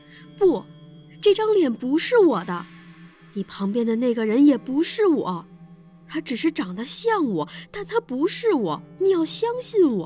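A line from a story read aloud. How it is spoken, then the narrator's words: Shouting. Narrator (Chinese): 我朝张雪大喊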